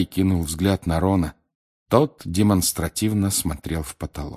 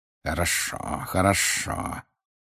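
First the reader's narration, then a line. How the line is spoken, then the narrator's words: Hissed. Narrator (Russian): прошипел Снег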